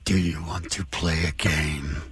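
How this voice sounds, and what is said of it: Impression of the horror character Jigsaw. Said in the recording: “his impression of Jigsaw ... That was pretty good”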